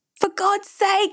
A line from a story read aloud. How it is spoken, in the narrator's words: Ebeling screamed into the wind